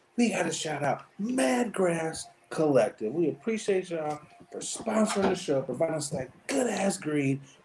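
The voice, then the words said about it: Put-on radio announcer voice, hoarse. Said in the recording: “announcer voice is hilarious ... horse-ass voice”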